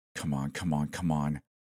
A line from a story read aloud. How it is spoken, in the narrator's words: whispered frantically